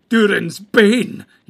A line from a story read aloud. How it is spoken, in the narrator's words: he cried